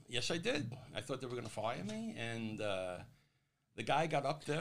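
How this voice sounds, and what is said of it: New York accent. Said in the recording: “from New York ... You notice my accent? ... this New York City guy”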